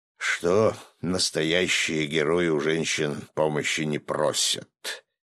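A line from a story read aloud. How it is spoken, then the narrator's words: Quiet, bearded man. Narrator (Russian): тихо закончил бородач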